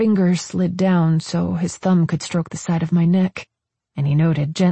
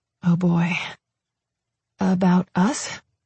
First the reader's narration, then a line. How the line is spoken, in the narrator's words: I asked hesitantly